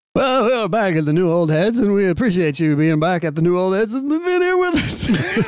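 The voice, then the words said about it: Old-timey radio announcer voice. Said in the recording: “It's the old-timey radio voice.”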